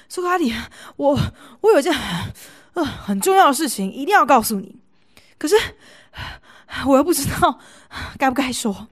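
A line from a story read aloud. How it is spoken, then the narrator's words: Panting heavily. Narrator (Chinese): 苏格拉底有个好朋友，气喘如牛的在大街上把他拦了下来，说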